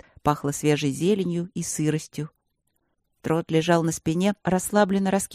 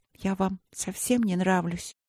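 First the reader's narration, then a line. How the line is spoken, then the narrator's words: Sad question, princess. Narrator (Russian): грустно спросила принцесса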